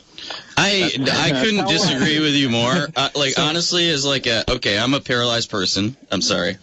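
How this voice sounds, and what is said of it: Speaking too loudly. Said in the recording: “I'm talking too loudly.”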